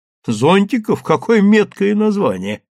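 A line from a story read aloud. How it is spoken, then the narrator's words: Laughing. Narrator (Russian): рассмеялась заведующая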